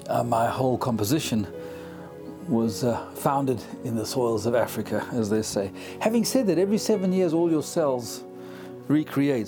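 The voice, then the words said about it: South African accent. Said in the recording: “born in South Africa, as you can tell from the accent”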